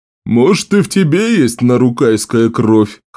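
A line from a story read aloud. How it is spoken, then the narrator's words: Laughing chuckle. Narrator (Russian): хохотнул нарукаец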